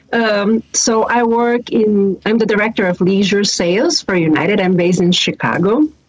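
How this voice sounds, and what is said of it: Slight Brazilian accent. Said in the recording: “If you hear a little bit of an accent, I always like to tell people that I am from Brazil because people are intrigued where is this accent coming from?”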